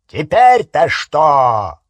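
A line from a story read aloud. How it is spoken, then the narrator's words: Angry bark. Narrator (Russian): рявкнул дядя Вернон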